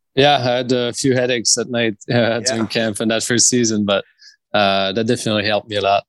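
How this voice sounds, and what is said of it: Strong French accent. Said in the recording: “I still have a big French accent”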